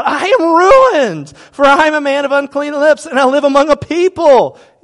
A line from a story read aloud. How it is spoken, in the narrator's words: He cried out